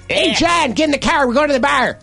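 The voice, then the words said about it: Exaggerated Chicago-area Northern Illinois accent. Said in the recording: “we kind of get the a mix of Illinois, like, hey, Chicago, and then you get Wisconsin ... some people, like my father-in-law, there's nobody named John or Bob. It's Jan. Bab.”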